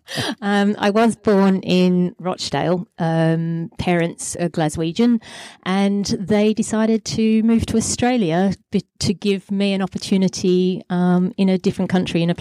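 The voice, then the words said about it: Lancashire English accent. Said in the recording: “there's a hint of an accent there ... as you can hear by the accent, I'm a Lancashire lass.”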